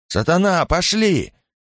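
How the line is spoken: Confused helpless shout. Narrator (Russian): С выражением, свидетельствующим о глубоком замешательстве и бессилии, закричал

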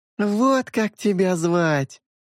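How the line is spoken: Triumphant exclamation. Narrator (Russian): торжествующе воскликнула Синель

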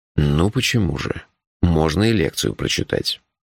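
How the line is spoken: Sighing. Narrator (Russian): вздохнул Джуфин

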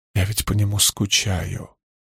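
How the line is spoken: Whispered. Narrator (Russian): прошептала Сабига

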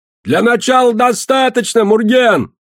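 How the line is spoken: Shout. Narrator (Russian): Бадья прокричал

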